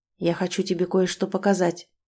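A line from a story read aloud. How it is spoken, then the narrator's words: Quiet. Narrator (Russian): тихо сказал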